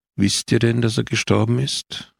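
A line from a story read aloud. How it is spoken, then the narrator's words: Urgent weary male voice. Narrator (German): hob der Mann wieder an, dringlich und müde zugleich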